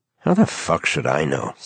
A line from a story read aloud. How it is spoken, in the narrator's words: said Carl sullenly